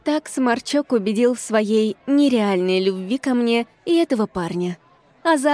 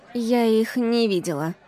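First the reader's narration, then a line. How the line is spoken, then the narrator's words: Lazy. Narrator (Russian): сообщила я лениво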